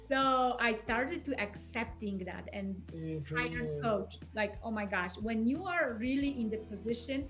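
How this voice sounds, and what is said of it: Non-native English accent. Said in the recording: “I do have accent ... You are in a different country, you speak different language, so you have an accent.”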